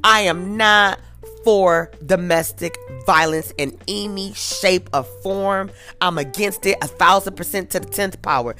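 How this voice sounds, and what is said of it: Passionate, emphatic delivery. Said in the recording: “I'm passionate. You probably can hear it in my voice.”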